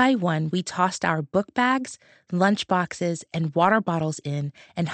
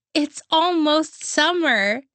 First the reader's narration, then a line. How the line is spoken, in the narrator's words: She exclaimed